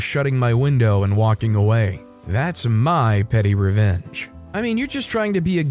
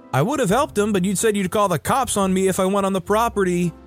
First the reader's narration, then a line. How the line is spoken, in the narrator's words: yelled